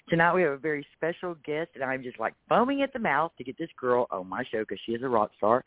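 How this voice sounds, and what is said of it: Texas accent. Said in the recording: “with my Texas accent”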